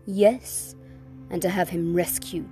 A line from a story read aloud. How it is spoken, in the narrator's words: said the witch scornfully